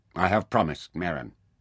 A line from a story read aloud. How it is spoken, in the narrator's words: said Nefer firmly